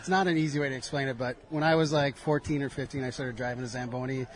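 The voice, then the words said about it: Minnesota accent. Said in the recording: “I hear an accent. ... Oh, yeah. Minnesota.”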